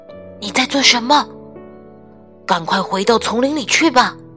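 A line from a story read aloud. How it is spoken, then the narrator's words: Hushed. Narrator (Chinese): 乔伊压低声音说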